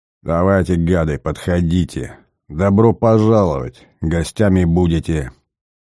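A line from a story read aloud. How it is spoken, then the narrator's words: Wheezing, hoarse. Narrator (Russian): хрипел Николай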